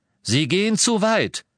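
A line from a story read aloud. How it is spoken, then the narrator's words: Called out. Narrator (German): rief Scrimgeour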